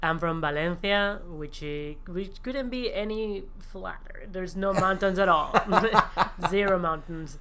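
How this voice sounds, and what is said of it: Spanish accent in English. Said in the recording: “Spain ... Your accent would say that you're... I'm not American.”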